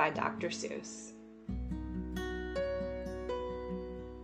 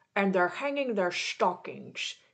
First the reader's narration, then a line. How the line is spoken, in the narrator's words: snarled and sneered